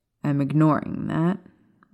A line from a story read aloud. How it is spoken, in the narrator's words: Lily muttered